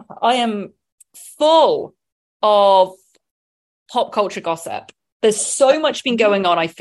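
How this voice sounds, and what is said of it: Usual voice. Nothing is said of it.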